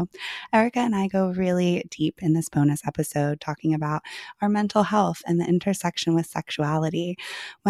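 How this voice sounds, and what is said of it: Hoarse, partly lost voice. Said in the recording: “Excuse my voice this week ... I have lost my voice, so I am a little hoarse”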